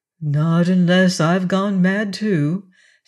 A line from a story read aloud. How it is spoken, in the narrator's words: said Arthur soothingly